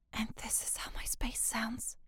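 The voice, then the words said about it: Whispering. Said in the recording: “if I'm whispering”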